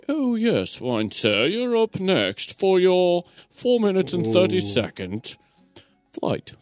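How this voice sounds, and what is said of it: Poor put-on British accent. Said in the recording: “Wasn't even like a decent accent. ... I don't even know what kind of accent was that? ... is that what they really think we sound like?”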